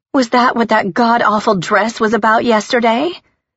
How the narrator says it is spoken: Celeste gasped

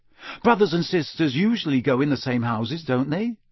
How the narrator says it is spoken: he said

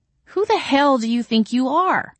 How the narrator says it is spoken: I cried

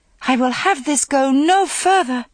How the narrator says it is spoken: cried out

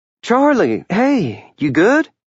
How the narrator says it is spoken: Clara asked anxiously

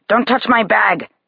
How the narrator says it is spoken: the homeless man growls

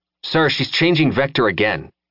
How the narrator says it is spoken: Keturah said

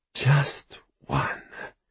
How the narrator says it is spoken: the soul catcher whispers

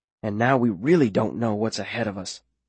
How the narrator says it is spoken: I whisper back

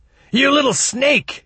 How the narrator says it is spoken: screamed

